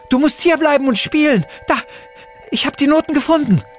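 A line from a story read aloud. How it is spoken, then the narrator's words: Shouting. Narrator (German): schrie Luna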